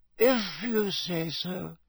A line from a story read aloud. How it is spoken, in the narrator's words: she muttered sleepily